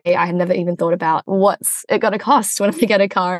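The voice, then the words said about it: Australian accent. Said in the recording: “you can tell from my accent, I'm actually from Australia.”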